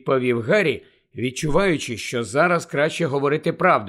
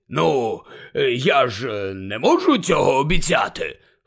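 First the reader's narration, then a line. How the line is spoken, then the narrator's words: Hoarse grumble. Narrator (Ukrainian): хрипко буркнув він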